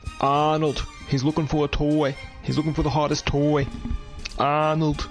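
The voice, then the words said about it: Bad Arnold Schwarzenegger impression. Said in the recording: “worst Arnold Schwarzenegger impression”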